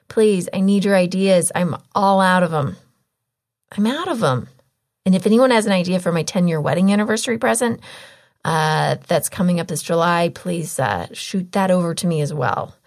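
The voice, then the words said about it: Strained, fading voice. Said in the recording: “I'm kind of losing my voice right now because I just ate so much popcorn”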